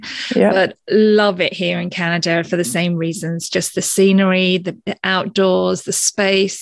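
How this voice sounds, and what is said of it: British accent. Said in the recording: “originally I'm from the UK, obviously, as you can tell from the accent”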